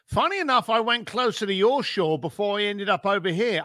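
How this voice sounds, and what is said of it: East London English accent. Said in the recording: “It's not an American accent ... I'm an East London boy.”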